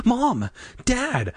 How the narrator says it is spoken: I cried

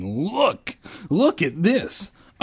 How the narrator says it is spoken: a girl cried

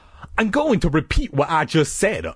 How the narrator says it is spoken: Uncle Al shouted

